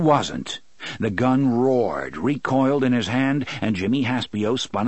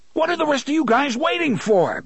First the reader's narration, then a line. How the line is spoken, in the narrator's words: Balazar screamed